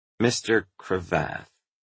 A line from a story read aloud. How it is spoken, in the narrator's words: said Fanny slowly